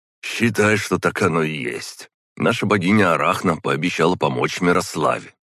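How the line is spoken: Plain. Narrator (Russian): ответил он

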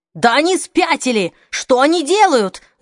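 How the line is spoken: Yelled. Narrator (Russian): завопил Альтман

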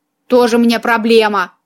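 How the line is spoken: Snorting cat. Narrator (Russian): фыркнул кот

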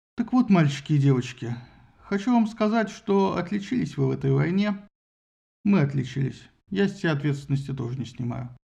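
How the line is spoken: Relieved sigh. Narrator (Russian): Зевс облегченно вздохнул и сказал, обращаясь к присутствующим

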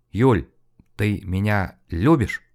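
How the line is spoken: Breathless, stammering question. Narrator (Russian): затаив дыхание, запинающимся голосом спросил

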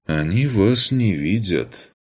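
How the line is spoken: Sadly ironic, reassuring. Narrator (Russian): грустно ироничным голосом успокоил незнакомец

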